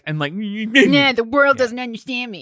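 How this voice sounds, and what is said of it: Whiny imitation of another person. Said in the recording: “you get real whiny ... That was a good impression.”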